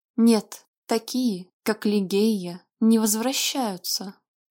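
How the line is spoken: Muffled objection. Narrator (Russian): глухо возразил Вальтер

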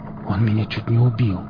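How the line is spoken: Breathless gasp. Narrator (Russian): выдохнул лесник

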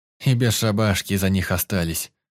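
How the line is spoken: Sighing. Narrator (Russian): вздохнул Пятница

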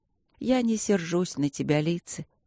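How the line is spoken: Husky, soft voice. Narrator (Russian): хрипловато и мягко проговорила леди Шарлотта

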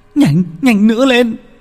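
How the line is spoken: Terrified crying while running. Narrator (Vietnamese): Sự sợ hãi dâng lên tột độ, thằng Đạt vừa chạy vừa méo, vừa chạy vừa khóc

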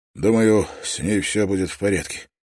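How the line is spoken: Low, hollow voice. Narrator (Russian): сказал он и удивился тому, как низко и глухо звучал его голос

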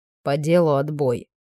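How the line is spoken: Grim declaration. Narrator (Russian): мрачно заявил комиссар

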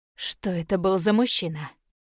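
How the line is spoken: Low dangerous growl. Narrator (Russian): прорычала Талвин низким опасным голосом

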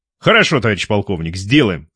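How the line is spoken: Loud reply. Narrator (Russian): громко ответил капитан

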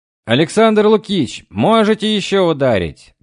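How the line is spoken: Shouting. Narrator (Russian): кричал мне Спиридов

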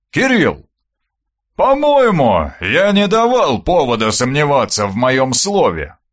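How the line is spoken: Booming drone. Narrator (Russian): прогудел Аристарх

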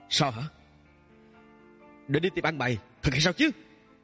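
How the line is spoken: Angry laughing. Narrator (Vietnamese): Tiêu Tình Nghiêm giận dữ mà cười cười

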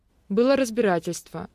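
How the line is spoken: Plain. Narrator (Russian): ответила я

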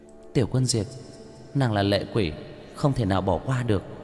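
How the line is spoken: Quiet, low voice. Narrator (Vietnamese): Liễu Yên Nhi nhỏ giọng

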